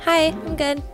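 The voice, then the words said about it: Higher-pitched, quieter voice. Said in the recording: “Your voice just got a lot higher and you got a lot quieter.”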